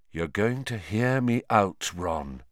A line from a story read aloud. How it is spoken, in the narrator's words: he said quietly